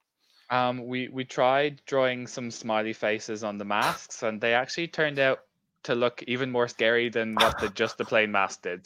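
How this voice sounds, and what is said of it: Irish accent. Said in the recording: “I started off obviously my career in Ireland, if you weren't able to pick the accent”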